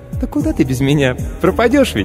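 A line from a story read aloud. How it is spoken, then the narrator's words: Squeak. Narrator (Russian): Пискнул автоклав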